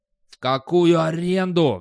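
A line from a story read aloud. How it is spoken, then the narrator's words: Roaring. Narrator (Russian): взревел Достабль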